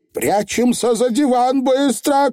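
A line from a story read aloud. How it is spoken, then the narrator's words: Shout. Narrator (Russian): крикнула нянюшка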